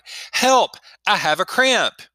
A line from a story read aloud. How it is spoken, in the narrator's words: Suddenly she cried